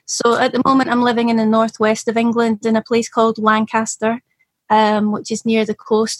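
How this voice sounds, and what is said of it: Slight Scottish accent. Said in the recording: “I've got a bit of a Scottish accent because I'm originally from up there”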